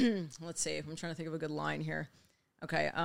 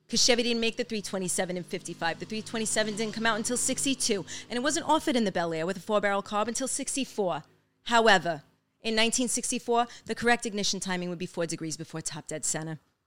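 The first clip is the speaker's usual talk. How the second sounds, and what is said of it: Imitates another person's voice. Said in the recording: “do a good Marissa Tomei impression ... that was pretty solid.”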